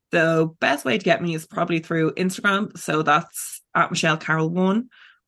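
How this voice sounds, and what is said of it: Irish accent. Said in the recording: “you have a lovely accent ... The first time the Irish accent is described as lovely.”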